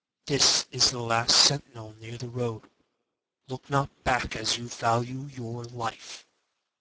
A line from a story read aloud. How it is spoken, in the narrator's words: Dropping his voice